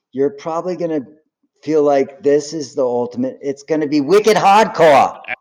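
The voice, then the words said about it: Put-on Boston accent. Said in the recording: “you nailed my accent perfectly ... As a guy who's from Boston”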